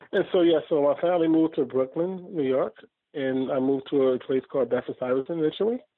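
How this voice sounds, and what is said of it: Brooklyn New York accent. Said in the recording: “Your accent doesn't sound very South Carolina. ... I've been Brooklynized”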